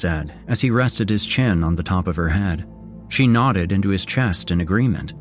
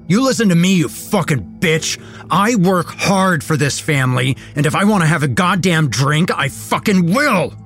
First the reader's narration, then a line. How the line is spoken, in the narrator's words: he screamed